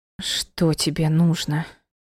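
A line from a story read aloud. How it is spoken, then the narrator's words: Rasped hoarsely. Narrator (Russian): просипела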